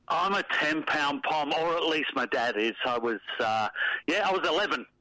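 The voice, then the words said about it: English accent. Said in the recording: “we pick up from the accent, born in England”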